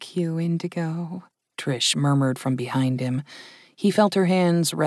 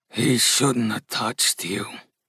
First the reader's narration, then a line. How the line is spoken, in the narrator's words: growled Gus